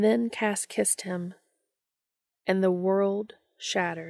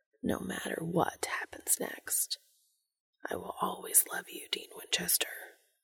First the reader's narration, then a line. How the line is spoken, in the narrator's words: whispering